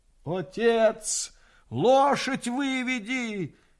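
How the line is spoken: Hoarse coughing shout. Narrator (Russian): хрипя, кашляя, кричала она

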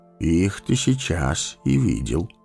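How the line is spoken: Calm. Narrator (Russian): спокойно сказал Гэндальф

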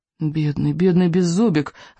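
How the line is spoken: Pitying sigh. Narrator (Russian): вздохнул Икинг

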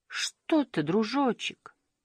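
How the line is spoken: Sad. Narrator (Russian): печально сказала Таутики

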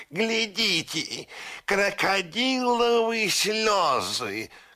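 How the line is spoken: Parrot shouting. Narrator (Russian): крикнул пестрый попугай

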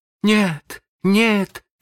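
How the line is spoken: Pitiful cries. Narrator (Russian): закричали они так жалобно

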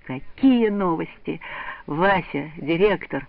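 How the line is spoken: Joyful repetition. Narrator (Russian): Васек радостно повторяя

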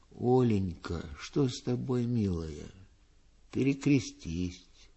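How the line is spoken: Tender. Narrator (Russian): Пустовалов говорил ей нежно

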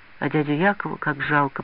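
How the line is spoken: Whispering. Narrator (Russian): прошептал Петя Русаков

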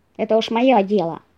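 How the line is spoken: Snapped back. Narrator (Russian): огрызнулся лис

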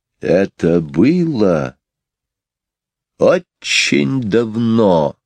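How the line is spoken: Mesmerizing storytelling tone. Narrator (Russian): начала Мэри Поппинс завораживающим тоном

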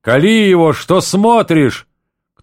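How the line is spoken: Shouting. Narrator (Russian): Другой человек кричал

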